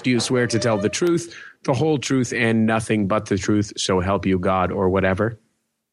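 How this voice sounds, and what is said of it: Raspy, under-the-weather voice. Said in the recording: “you're so under the weather ... your voice is a little raspy”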